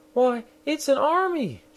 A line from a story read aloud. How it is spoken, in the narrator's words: She exclaimed